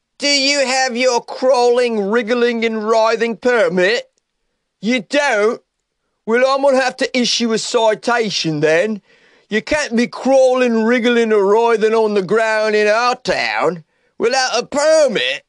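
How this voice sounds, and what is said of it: Put-on accent. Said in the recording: “How was that accent?”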